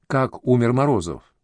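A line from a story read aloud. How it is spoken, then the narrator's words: Plain. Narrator (Russian): спросила она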